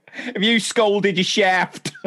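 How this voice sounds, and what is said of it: Attempted Cockney accent, sounds Essex. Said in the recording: “Are you from Essex? ... I need to brush up on my accents.”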